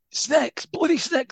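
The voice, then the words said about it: Imitates a football fan's shout. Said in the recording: “doing an impression of me, doing an impression of a United fan”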